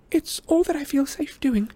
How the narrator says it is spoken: said Hermione shakily

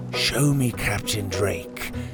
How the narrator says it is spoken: he'd whisper

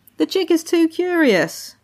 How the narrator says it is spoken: The birds had laughed and said

